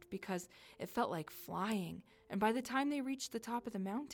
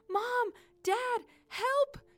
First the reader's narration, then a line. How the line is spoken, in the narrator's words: yelled